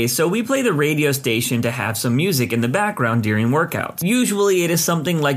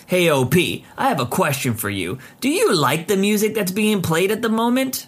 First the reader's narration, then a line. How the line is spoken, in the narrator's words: In a rude tone